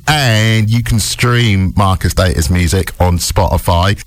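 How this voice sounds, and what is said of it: Berkshire English accent. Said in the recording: “my Berkshire accent”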